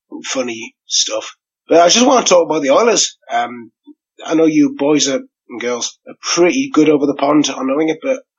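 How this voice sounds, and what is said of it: Hoarse voice from a cold. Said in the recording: “the voice is gone because I've got a bit of a cold”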